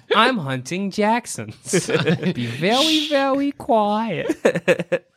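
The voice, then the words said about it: Elmer Fudd cartoon voice impression. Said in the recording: “do an Elmer Fudd impression?”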